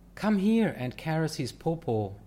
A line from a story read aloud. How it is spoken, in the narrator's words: he exclaimed